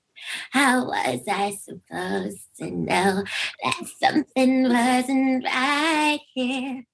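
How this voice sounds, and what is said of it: Squeaky imitation of another person's voice. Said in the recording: “great your Britney impression is ... I had a squeaky voice, and somebody was like, oh, my God, it kind of sounds like Britney”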